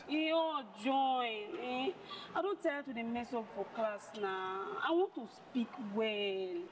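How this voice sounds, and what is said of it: Strong non-native English accent. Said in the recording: “it's not your English, it's your accent. ... No, it's accent. Accent.”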